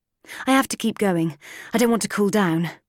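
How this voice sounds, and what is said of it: American accent. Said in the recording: “It's an American accent.”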